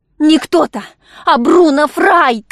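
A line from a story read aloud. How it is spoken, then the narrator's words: Shouted. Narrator (Russian): крикнула она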